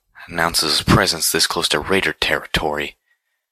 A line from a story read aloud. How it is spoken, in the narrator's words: Monterey grumbled